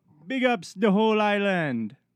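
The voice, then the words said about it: Put-on Jamaican accent. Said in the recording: “in a Jamaican accent”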